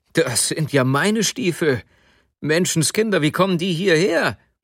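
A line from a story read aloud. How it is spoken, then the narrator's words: Sudden call. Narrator (German): Plötzlich rief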